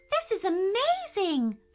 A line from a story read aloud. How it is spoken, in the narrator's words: squealed Gracie, jumping up and down